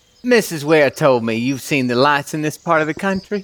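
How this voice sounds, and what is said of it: Put-on Southern US accent. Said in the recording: “Thick Boston accent, right? Real thick ... Wait, no, that's southern. I gotta get more north.”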